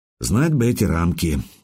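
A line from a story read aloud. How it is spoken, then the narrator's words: Sigh. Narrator (Russian): вздохнул я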